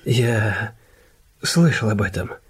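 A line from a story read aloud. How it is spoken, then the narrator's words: Gentle. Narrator (Russian): мягко сказал Иден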